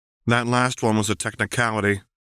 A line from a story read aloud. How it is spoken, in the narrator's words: Lux replied flatly